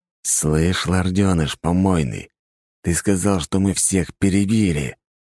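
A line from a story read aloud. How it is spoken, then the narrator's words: Mental hiss. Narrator (Russian): прошипел мысленно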